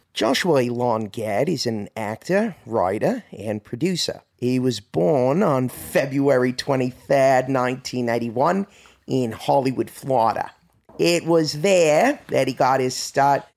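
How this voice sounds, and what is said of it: Put-on Australian accent. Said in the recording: “would you like to read it in a particular accent? ... we'll start off with Australian”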